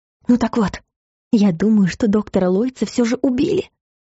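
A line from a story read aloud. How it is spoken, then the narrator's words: Hoarse whisper in ear. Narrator (Russian): сипло прошептала Элла на ухо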